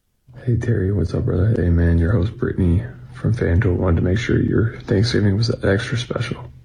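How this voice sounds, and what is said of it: Deliberately sultry, sexy-sounding voice. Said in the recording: “why is he using his sexy voice?”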